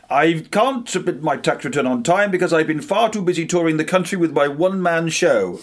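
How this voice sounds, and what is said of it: Theatrical, actorly voice. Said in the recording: “I need to do this in an actory voice. I don't think I can quite do it justice”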